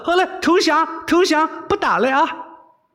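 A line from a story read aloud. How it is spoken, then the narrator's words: Shouting. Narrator (Chinese): 韦小宝叫道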